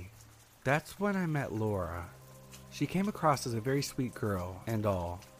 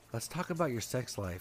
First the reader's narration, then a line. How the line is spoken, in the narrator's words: she said